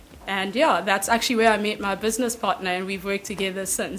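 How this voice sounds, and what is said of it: South African accent, Durban–Cape Town mix. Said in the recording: “you've got such a mix of accents... I like listen to your accent and I'm like, okay, I can feel a bit of Durban there. Oh, but there's a little bit of Cape Town sneaking in. There's like all these different accents”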